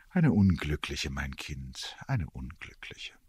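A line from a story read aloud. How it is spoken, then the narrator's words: Odd sighing reply. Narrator (German): antwortete das Fräulein Brahe mit einem Seufzer, der mir komisch vorkam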